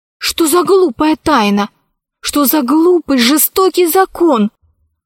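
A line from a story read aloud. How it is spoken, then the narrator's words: Exclaimed. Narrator (Russian): воскликнула Алиса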